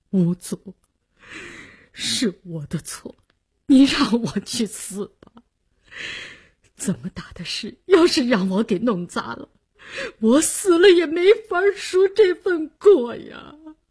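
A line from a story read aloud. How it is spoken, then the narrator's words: Suppressed sobbing. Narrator (Chinese): 李大公压抑的哭腔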